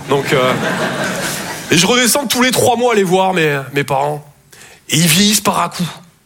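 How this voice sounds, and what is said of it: Toulouse southern French accent. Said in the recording (French): “Je viens de Toulouse à la base. Ouais, ça s'entend un peu. ... mon accent, ... Je sors que quand je suis en confiance. ... Et apparemment, avec vous, ça va super.”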